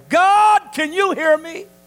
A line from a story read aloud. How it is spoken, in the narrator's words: he cried